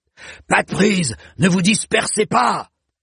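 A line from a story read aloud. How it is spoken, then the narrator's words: Barked orders. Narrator (French): aboyait Cohir de Thèves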